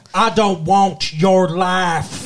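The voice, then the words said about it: Deliberately bad West Texas accent. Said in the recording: “That was a better West Texas accent than he did. ... That was me trying to do a bad one, too.”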